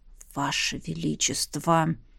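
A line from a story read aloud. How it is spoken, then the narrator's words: Angry hiss. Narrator (Russian): зло прошипел Сандерс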